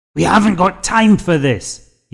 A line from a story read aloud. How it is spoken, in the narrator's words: yelled